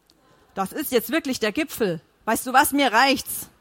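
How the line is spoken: Blustering shout. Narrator (German): rief polternd

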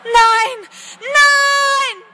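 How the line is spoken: Scream. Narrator (German): schrie sie

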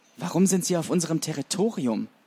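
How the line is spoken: Trembling-voiced question. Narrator (German): fragte Heldenmut mit zitternder Stimme

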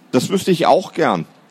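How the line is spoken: Plain. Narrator (German): sagte Philipp

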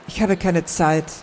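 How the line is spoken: Quiet. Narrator (German): sagte sie leise

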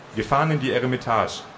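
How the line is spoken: Plain. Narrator (German): sagte ich

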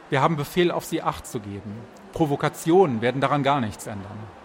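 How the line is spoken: Calm reply. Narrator (German): entgegnete er ruhig

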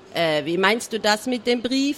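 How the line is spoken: Plain. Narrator (German): fragte

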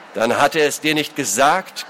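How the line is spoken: Nobleman growling. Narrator (German): knurrte der Adlige

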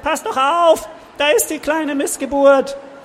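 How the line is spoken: Squeaky voice. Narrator (German): Was für eine Piepsstimme

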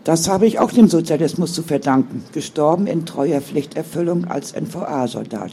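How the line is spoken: Stammered. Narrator (German): stammelte Martina

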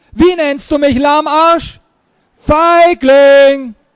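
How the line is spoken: Distant shout. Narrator (German): schrie in der Ferne

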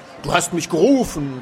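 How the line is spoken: Thunderous powerful voice. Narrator (German): donnerte eine ungewöhnlich kräftige Stimme über den Friedhof

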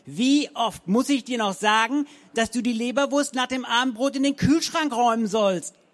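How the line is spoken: Angry bellow. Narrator (German): brüllte sie Richtung Tür, aber das Ziel ihrer Wut

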